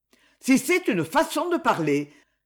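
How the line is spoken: Impetuous exclamation. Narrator (French): s'écria l'impétueux directeur

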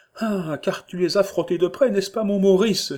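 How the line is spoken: Sweet, soft woman's exclamation. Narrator (French): s'écria la bonne femme, dont la voix était douce comme un solo de clarinette

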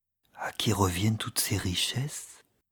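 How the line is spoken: Whispered addition. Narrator (French): ajouta-t-il tout bas

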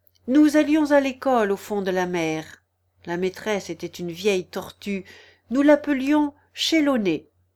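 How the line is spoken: Calmer, occasional sobs. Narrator (French): continua la fausse tortue d'un ton plus calme, quoiqu'elle laissât encore de temps à autre échapper un sanglot

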